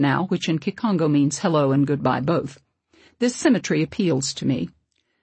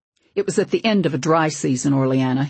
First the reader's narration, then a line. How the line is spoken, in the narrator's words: he snapped